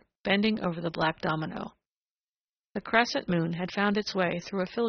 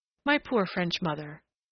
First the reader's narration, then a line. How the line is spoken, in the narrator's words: whimsically the girl sighed